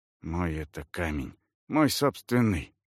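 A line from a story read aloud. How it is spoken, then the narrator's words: Warrior muttering. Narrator (Russian): пробормотал воин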